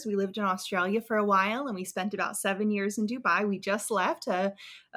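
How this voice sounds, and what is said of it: Strong American accent. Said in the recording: “We're originally from the U.S., as you can probably tell from our accents. They're very strong.”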